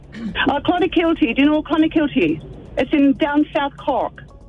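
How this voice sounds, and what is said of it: Irish accent. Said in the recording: “You're from Scotland? ... No, Ireland. ... Do you think she's putting on an accent?”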